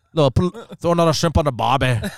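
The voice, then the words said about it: Poor attempt at Australian accent. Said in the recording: “you're terrible at accents. ... That did not sound ... Australian ... at all. ... All my accents sound like I'm from England or something.”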